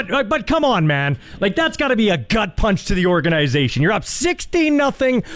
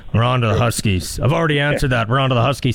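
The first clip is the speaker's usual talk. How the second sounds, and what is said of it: Imitates another person's flat delivery. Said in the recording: “You said that too energetic, by the way, if you're mimicking Belichick. You're supposed to say”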